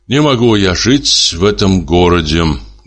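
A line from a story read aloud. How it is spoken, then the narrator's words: Gloomy. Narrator (Russian): говорил он мрачно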